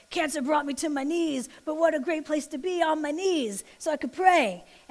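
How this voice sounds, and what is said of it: Mr. T impression. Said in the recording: “that was my Mr. T impersonation”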